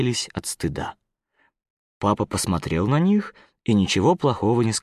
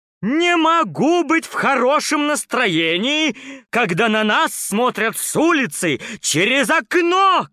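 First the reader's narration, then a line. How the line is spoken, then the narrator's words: Shouting. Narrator (Russian): кричала мама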